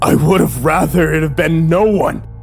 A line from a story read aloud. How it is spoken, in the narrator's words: I screamed at him, blood spilling across the space between